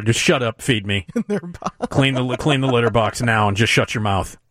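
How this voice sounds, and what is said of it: Imitates a cat's voice. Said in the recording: “That's my imitation of a cat.”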